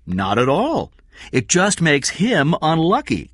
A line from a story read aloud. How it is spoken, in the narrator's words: King said